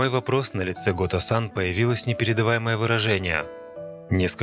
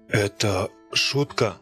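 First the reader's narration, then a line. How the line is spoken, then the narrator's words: Strained voice. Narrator (Russian): сдавленным голосом спросил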